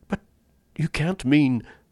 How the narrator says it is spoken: gasped Rainsford

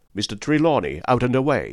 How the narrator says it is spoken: said I

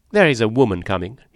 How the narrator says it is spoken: he said, and his voice was now sharp and earnest

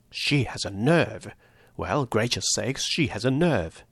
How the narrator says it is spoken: he muttered

